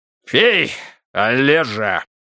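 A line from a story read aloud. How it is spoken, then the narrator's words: Barking. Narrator (Russian): рявкнул губернатор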